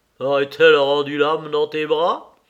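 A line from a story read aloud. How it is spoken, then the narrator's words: Mocking question. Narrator (French): demanda Binos d'un ton toujours gouailleur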